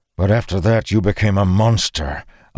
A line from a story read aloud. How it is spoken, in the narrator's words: Arik snarled